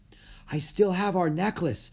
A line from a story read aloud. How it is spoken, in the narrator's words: Annie said, panting